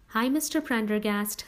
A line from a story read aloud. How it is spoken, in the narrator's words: said a little nervously